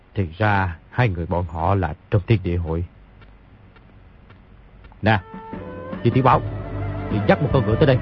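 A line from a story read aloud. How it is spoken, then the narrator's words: Mumbling. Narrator (Vietnamese): lẩm bẩm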